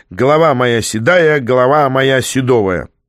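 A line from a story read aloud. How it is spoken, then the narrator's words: Shouting. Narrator (Russian): закричал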